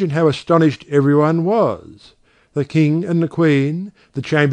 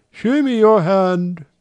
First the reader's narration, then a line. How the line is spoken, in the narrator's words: said the prince, trembling and heaving a deep sigh